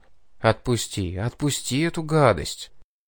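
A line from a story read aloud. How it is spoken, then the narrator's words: Gentle coaxing murmur. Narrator (Russian): ласково приговаривая при этом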